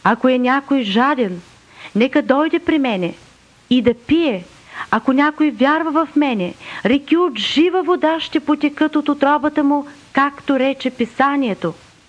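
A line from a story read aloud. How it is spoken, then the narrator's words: Shouting. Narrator (Bulgarian): Исус извика казвайки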